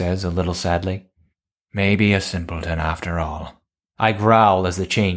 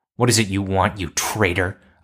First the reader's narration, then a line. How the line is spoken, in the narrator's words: I snarl, half-changed